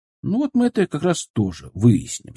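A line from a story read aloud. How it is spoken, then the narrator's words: Calm promise. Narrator (Russian): спокойно пообещал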